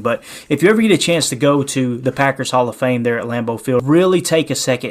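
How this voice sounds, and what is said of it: Regional accent, drops L sounds after vowels. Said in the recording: “You're probably making fun of the accent again. I don't pronounce L's after a vowel”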